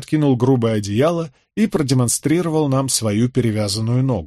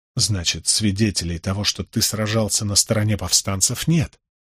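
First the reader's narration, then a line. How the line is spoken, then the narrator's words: Low-voiced remark. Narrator (Russian): вполголоса заметил я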